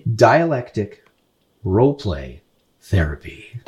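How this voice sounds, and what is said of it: Radio announcer voice. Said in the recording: “Ooh, that was my radio voice. ... Comes from doing the voices for the game.”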